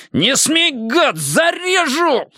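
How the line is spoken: Howling threat. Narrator (Russian): взвыл Штырь

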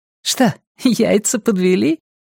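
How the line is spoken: Giggling. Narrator (Russian): хихикнула она

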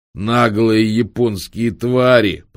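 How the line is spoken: Old man's growl. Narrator (Russian): прорычал одноногий кладбищенский сторож

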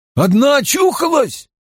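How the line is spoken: Frightened shout. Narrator (Russian): закричал чей-то испуганный голос

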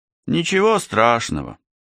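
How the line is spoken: Glum, smiling. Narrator (Russian): уныло улыбнулся парень

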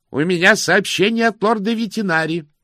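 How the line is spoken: Shout. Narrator (Russian): прокричал тот

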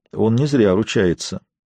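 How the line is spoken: Quiet. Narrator (Russian): тихо сказал лорд Аллен

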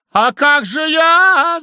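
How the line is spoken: Alarmed shout. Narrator (Russian): закричала Анфиса, почуяв неладное

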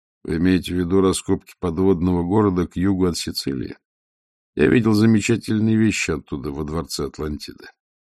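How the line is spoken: Calm question. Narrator (Russian): Веде спокойно спросив

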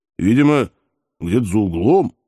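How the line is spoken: Uncertain guess. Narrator (Russian): неуверенно предположил казак

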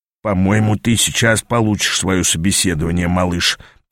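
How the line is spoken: Mutter. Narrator (Russian): пробормотал Аас

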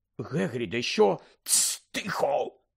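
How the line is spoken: Hissed. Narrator (Ukrainian): просичав Гегрід

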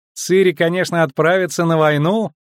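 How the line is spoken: Loud laughter. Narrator (Russian): захохотала Иоля II

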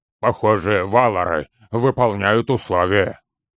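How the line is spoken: Strained, forced out. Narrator (Russian): выдавил из себя Торин

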